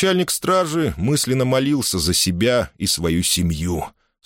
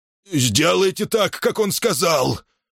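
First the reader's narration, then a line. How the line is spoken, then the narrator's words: Hurried hoarse order. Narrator (Russian): прохрипел Паша, торопливо отдавая распоряжение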